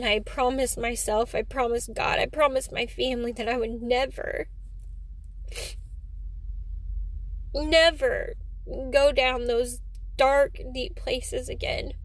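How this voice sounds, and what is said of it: Emotional, choked-up speech. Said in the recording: “getting emotional”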